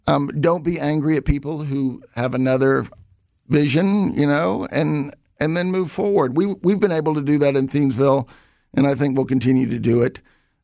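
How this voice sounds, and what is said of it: Southern US accent. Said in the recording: “Where's your accent from? ... I grew up in the Southeast, so I was in uh, Alabama. I graduated from a high school in Louisiana”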